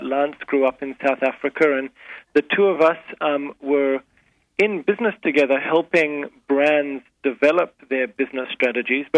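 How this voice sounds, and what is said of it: Speaks with a noticeable accent. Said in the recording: “as you can probably tell from my accent, we're sort of a mix of backgrounds”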